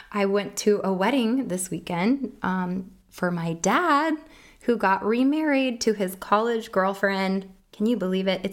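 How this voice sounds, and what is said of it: Hoarse voice. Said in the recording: “My apologies for my hoarse voice. It's kind of sexy, right?”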